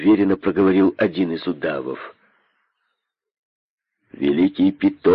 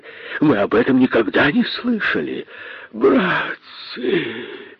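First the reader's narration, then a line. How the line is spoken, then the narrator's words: Moaning. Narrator (Russian): застонал косой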